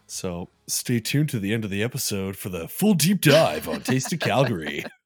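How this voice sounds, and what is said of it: Radio DJ voice. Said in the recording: “There's my radio DJ voice.”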